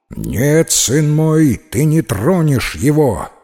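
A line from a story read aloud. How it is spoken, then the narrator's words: Menacing exclamation, mother. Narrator (Russian): грозно воскликнула его мать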